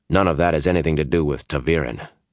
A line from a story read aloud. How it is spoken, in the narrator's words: Perrin said